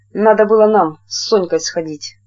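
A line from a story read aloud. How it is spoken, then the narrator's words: Angry. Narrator (Russian): Зофья злобно сказала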